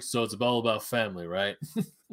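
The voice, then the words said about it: Imitates another person's voice, odd accent. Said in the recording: “I don't know what accent I was going there.”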